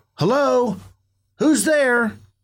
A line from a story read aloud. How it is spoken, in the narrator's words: I stopped and called out